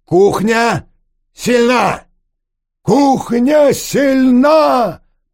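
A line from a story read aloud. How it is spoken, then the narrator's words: Loud shouting. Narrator (Russian): громко произносит Владимир и выкрикивает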